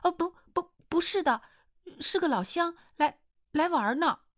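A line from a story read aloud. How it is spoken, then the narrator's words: Hurried. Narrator (Chinese): 易清河急忙说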